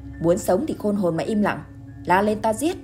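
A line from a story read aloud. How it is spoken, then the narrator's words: Harsh bark. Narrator (Vietnamese): bị Cẩm Hạ quát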